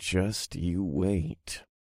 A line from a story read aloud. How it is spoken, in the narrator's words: I murmured